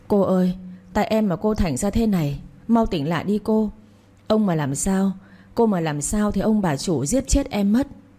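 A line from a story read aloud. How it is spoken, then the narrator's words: Frightened wailing. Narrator (Vietnamese): Con Hảo sợ hãi khóc ré lên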